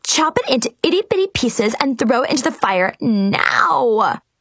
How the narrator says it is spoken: Mackenzie screeched

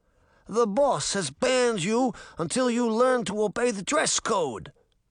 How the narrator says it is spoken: the bulldog face grunted

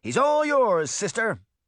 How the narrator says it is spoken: shouted

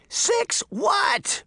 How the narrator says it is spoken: Sabrina screamed

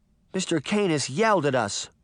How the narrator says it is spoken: Daphne cried

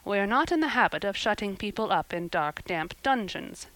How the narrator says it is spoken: said Marilla dryly

